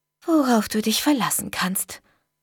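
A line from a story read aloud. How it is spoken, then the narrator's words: Murmur. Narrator (German): murmelte ich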